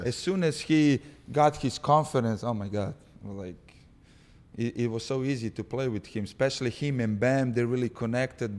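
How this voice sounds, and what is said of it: Speaks with a foreign accent. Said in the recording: “my accent. OG was always make fun of my accent”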